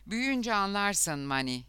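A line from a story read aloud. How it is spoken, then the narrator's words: Plain. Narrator (Turkish): dedi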